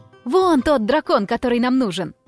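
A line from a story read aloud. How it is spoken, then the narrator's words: Exclamation. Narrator (Russian): воскликнула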